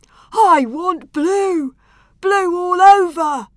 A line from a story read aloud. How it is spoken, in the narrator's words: yelled the hippopotamus